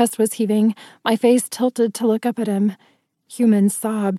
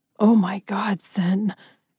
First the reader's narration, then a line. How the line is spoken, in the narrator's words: he whispered, horrified